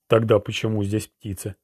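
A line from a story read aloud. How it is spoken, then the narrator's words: Muttered. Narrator (Russian): пробормотал Ролан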